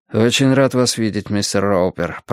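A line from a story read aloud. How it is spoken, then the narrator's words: Muttering in English. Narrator (Russian): пробормотал Джонатан, по-английски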